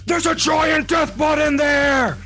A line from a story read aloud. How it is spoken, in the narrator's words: first he yells